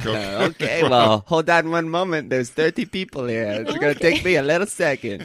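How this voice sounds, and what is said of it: Mixed, hard-to-place accent. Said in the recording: “I hear it all. It's a melange in your accent.”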